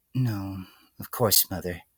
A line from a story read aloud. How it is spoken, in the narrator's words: the filly murmured ... almost entirely out of habit